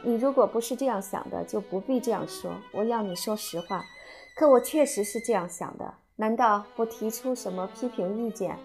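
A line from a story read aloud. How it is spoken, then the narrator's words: Faint smile. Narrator (Chinese): 微微一笑说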